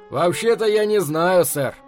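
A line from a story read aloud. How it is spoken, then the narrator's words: Cheerful reply. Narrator (Russian): бодро отвечает лысый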